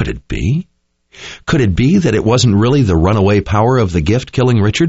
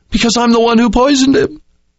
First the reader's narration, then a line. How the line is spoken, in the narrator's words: cried